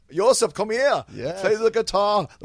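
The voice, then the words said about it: Bad put-on Polish accent. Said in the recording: “The worst Polish accent in the world.”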